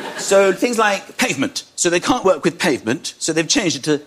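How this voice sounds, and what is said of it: Usual voice. Nothing is said of it.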